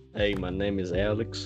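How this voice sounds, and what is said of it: Put-on accent. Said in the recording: “Why do you have to put on an accent?”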